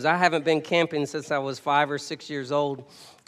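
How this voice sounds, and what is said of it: Strained, worn-out voice. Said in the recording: “I went camping this weekend, so if you hear it in my voice, that's why. So if my voice goes out”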